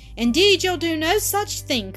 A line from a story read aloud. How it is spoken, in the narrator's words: cried